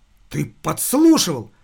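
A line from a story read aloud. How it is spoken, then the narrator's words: Girl exclaiming. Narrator (Russian): воскликнула девушка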